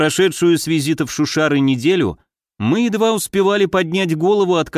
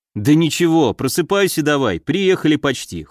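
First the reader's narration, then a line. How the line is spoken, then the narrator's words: Smirking grunt. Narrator (Russian): хмыкнул я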